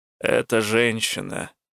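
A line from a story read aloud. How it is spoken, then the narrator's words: Forced out. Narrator (Russian): наконец выдавил он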